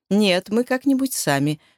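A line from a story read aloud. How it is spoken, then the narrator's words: Curt, dry remark. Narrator (Russian): сухо бросила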